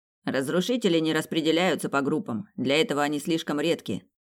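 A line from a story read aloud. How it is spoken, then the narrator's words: Calm young man explaining. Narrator (Russian): спокойно пояснил молодой мужчина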